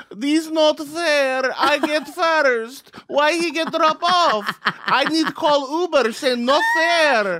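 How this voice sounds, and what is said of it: Imitated Russian accent, broken English. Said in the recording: “does she have a Russian accent?”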